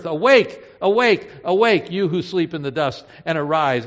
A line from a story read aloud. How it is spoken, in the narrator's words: he will shout a shout that echoes through the earth